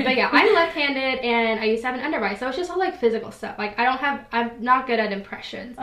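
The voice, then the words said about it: Thick regional accent. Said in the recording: “obviously I have a very much thicker accent... That I really can't control”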